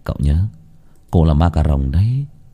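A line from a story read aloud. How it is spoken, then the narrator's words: Sighing. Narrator (Vietnamese): Bách Việt lúc này thở dài lên tiếng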